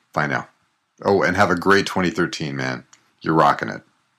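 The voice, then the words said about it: Rich, resonant radio voice. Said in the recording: “haven't you got the most amazing radio voice? Seriously, that is solid.”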